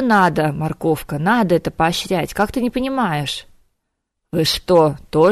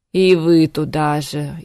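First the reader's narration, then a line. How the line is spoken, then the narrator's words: Exhausted groan. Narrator (Russian): измученно простонал Витька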